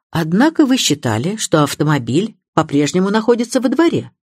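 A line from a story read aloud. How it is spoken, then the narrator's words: Plain. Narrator (Russian): спросил Харпер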